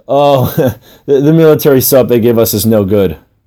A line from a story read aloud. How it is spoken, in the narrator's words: I laughed as I said